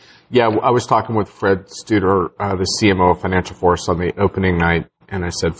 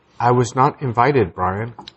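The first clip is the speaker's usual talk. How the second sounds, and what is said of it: Imitates a voice assistant. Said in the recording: “How do you do the Alexa voice?... you don't have the dulcet tones of Alexa”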